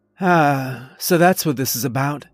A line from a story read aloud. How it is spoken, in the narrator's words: Mia said wistfully